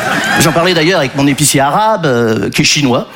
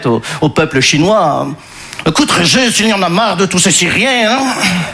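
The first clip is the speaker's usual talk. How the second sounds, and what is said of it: Put-on Belgian French accent. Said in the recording (French): “je prends l'accent belge parce que je ne sais pas faire l'accent chinois”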